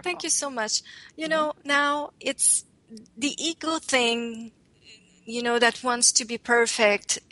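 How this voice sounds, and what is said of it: French accent speaking English. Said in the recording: “they love my accent. ... in English, this is the best I can do.”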